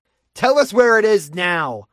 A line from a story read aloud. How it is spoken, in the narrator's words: Bruce shouted